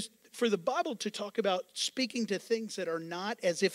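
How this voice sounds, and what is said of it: Usual voice. Nothing is said of it.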